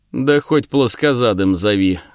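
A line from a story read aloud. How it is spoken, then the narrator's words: Amused snort. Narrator (Russian): хмыкнул четырехрунный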